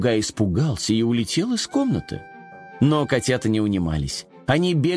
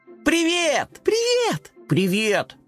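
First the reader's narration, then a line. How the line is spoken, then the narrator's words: Overlapping shouts. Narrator (Russian): наперебой закричали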